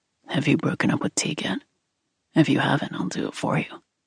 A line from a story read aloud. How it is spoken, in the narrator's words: Nate mumbled into her hair